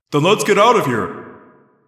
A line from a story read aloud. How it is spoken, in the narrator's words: Jake yelled